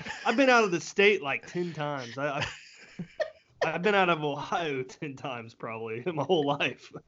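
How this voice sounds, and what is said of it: Southern Louisiana-like accent. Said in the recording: “You sound it. Like you're from Louisiana with that accent”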